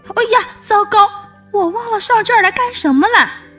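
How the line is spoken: Sudden cry. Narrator (Chinese): 糟糕叔叔忽然叫了起来

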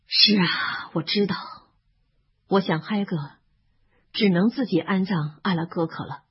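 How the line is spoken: Sighing. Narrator (Chinese): 哈利叹了口气

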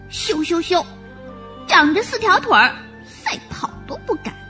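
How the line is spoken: Little rabbit calling. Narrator (Chinese): 小兔子叫着

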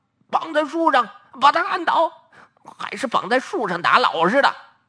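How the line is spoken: Many voices shouting. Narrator (Chinese): 特务们七嘴八舌的喊叫

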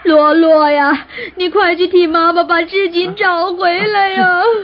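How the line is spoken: Crying out in sorrow. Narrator (Chinese): 罗妈妈眼见自己花了3年心血织成的锦图不见了，难过的又哭又叫

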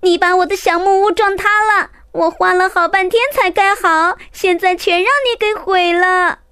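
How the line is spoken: Shouting. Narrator (Chinese): 弟弟玛尼大叫

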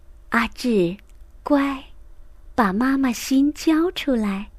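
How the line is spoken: Gentle. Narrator (Chinese): 老师都更温柔地说

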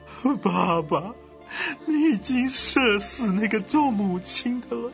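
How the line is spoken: Sudden sobbing. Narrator (Chinese): 骑在马上的曹睿啊，忽然痛哭流涕啊，他说

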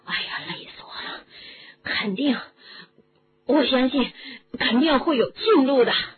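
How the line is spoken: Panting. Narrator (Chinese): 罗恩喘息着说

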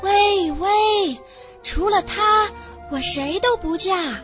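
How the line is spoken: Girl's loud distant reply. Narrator (Chinese): 第2位姑娘 从山的另一边大声答话

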